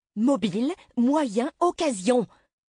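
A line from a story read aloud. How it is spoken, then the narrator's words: Captain exclaiming. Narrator (French): s'écria le capitaine O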